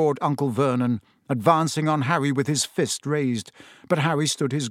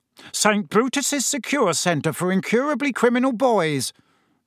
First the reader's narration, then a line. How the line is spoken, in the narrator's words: bellowed Uncle Vernon, and Harry was pleased to hear a definite note of panic in Uncle Vernon's voice